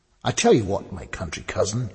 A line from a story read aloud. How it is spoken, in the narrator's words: said more brightly